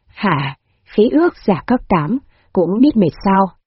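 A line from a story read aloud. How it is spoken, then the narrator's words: Slightly surprised question. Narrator (Vietnamese): Hạ hỏi, hơi ngạc nhiên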